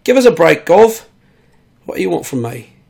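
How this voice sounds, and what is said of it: Put-on Cockney accent, not very good. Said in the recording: “my accents aren't really up to snuff right now ... that's a bit more cockney there”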